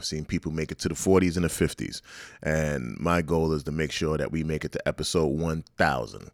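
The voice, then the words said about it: Slightly hoarse, strained voice. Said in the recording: “my voice is a little hoarse. ... I've been straining my voice”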